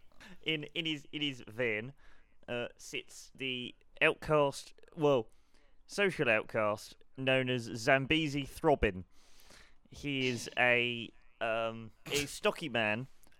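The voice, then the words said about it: Put-on West Country South African accent. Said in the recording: “Kind of West Country South African.”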